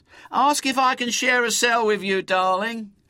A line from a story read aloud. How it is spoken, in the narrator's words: shouts